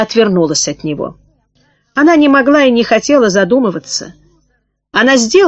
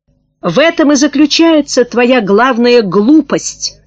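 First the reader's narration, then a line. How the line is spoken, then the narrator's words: Shout. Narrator (Russian): закричал Аскольд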